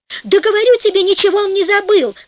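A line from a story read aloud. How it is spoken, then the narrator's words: Wife shouting. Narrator (Russian): закричала жена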